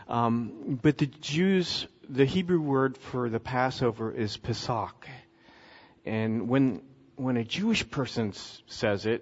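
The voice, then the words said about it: American accent. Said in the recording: “I'm a good American and I speak with an American accent.”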